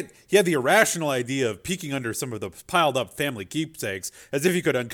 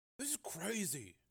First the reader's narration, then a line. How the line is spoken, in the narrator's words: Joe Hardy muttered, in shock